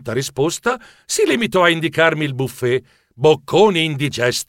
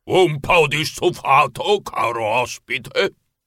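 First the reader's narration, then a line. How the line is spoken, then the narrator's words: Thundered. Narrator (Italian): tuonò la voce del signor Giuseppe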